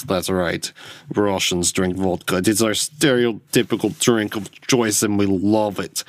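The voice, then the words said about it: Put-on Russian accent. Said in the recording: “I should go to my Russian accent. ... I picked up that accent by watching Glow a lot.”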